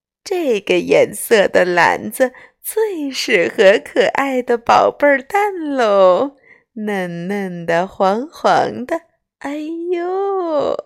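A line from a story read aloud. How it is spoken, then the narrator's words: Smiling. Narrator (Chinese): 笑眯眯地说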